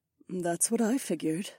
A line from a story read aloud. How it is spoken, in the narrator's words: she murmured